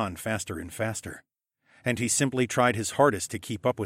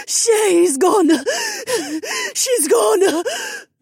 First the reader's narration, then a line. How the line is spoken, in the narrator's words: Zoe wailed as her tears soaked into my shirt collar